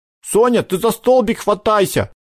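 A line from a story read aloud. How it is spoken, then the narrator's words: Yelled from above. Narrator (Russian): завопил сверху ладошка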